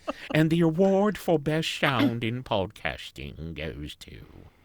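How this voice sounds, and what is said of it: Little old British lady voice. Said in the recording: “I sound like a little old British lady”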